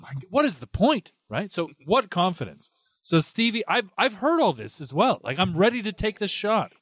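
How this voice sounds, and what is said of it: Usual voice. Nothing is said of it.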